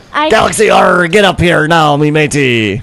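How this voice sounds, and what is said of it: Put-on pirate accent. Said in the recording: “I'm trying to sing in a pirate accent ... In a pirate accent?”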